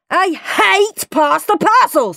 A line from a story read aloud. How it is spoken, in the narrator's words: screamed Henry